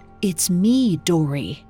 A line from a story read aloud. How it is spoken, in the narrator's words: She whispered